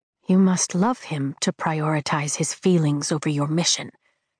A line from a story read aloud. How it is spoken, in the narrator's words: she says quietly, like it's a revelation